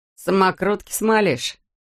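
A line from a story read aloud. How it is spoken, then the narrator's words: Snort. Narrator (Russian): Фыркнул Дэн Талли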